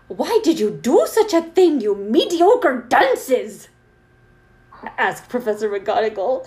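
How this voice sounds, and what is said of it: Imitated Professor McGonagall voice. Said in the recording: “I'm gonna attempt to do this with my best McGonagall voice. Which, I guess my best McGonagall voice is crap”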